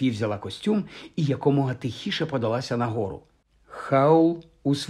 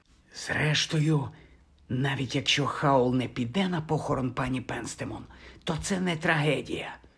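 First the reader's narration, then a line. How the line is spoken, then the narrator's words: Whispered. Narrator (Ukrainian): прошепотіла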